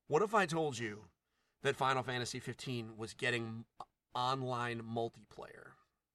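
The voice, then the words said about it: Morpheus impression. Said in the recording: “my Morpheus impression.”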